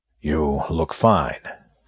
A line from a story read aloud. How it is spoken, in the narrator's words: said Gerard